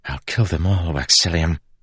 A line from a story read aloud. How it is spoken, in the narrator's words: whispered